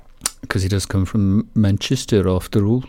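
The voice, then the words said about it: Failed Mancunian accent, sounds Birmingham. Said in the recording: “No, that's Birmingham. Wrong accent. Can't do the Mancunian accent.”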